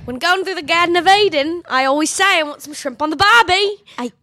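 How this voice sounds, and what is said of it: Put-on Australian accent. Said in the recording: “can you do an Australian accent?”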